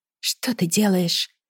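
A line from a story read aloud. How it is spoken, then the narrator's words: Whisper. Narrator (Russian): прошептала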